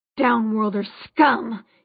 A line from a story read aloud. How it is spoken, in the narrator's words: he spat